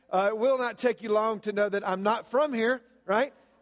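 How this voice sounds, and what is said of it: Southern American accent. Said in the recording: “the southern accent”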